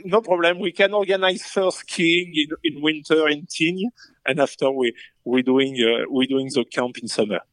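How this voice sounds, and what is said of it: French accent. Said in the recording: “So French. ... So français. ... I love his accent.”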